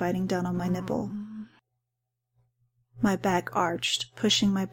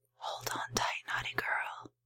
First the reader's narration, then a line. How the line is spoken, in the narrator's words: he whispered just for me to hear